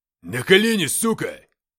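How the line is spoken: Barking. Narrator (Russian): рявкнул майор

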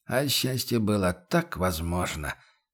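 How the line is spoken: Sighing mutter. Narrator (Russian): со вздохом пробормотал он

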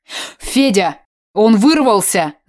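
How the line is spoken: Shout. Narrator (Russian): закричал журналист

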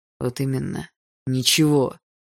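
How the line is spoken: Spat through teeth. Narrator (Russian): Сквозь зубы выплюнул Барс

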